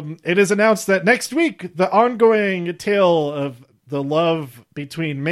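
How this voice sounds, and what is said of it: Usual voice. Nothing is said of it.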